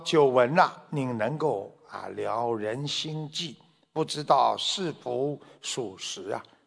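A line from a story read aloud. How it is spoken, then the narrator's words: Plain. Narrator (Chinese): 他就问了这个三藏法师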